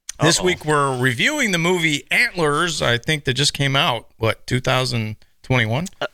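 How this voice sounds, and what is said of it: Strained voice, losing it. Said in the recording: “I'm losing my voice.”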